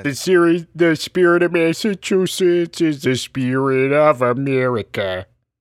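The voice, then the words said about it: Peter Griffin impression. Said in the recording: “my terrible Peter Griffin impression ... it's so good and convincing”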